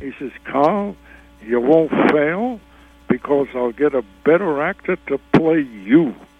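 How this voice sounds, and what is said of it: Imitates another person's voice. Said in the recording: “this is a good impression of Sheldon Leonard ... And that does sound just like Sheldon Leonard.”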